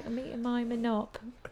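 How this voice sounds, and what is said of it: Put-on British accent. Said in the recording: “she had a British accent”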